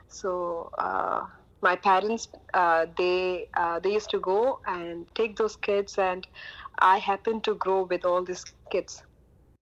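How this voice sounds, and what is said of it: Indian English accent. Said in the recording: “If you can't tell by the accent, ... is from India.”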